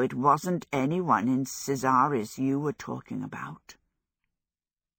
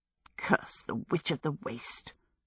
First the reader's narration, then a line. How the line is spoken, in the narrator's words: she muttered to her stick